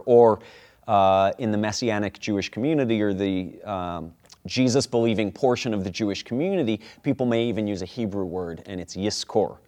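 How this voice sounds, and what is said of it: American Rochester accent. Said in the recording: “I said that with a very American accent ... they'd roll the R ... with my Rochester accent”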